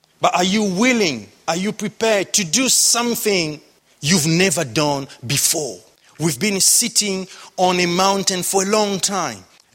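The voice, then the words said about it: Strong non-Cockney accent. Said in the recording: “who doesn't speak with the same Cockney accent as you do. Maybe his accent is nothing near my awful accent.”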